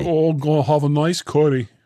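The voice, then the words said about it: Bad attempt at Birmingham accent. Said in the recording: “It was a really bad English accent. ... I was trying to do a Birmingham.”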